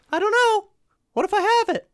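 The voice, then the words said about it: High squeaky character voice. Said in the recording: “Silvio squeaked ... He had a really high voice.”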